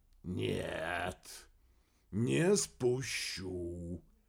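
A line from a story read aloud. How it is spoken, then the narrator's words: Deliberately slow. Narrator (Russian): Нарочито медленно ответил Кеннет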